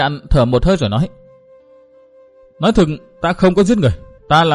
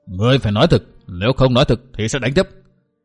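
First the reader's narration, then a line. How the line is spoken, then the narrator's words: Angry. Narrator (Vietnamese): Huyện quan lại vỗ bàn giận dữ nói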